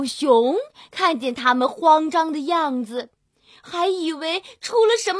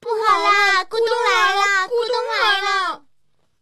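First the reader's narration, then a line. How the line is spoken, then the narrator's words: Shouting while running. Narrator (Chinese): 他们三个一边跑一边喊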